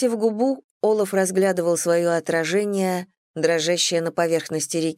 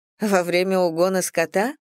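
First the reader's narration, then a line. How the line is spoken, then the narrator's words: Scornful snort. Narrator (Russian): фыркнула я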